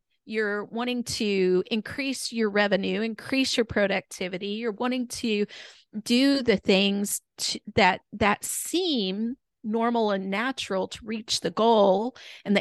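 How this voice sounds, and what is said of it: Hoarse, strained voice. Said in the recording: “I'm losing my voice today”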